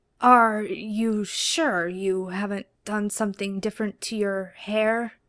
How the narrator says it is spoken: Dean asked, his voice more of a rough croak than anything

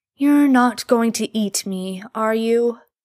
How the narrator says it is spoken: he asks, slurring

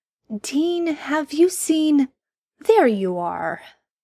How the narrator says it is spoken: Sam's voice echoed out over the gravel

